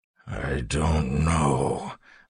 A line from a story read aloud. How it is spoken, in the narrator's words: Marsh said, his voice coming out in a growl